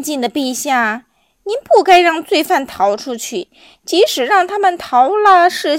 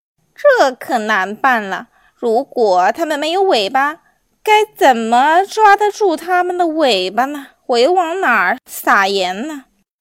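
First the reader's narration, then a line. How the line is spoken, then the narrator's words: Sighing. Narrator (Chinese): 柠檬王叹气说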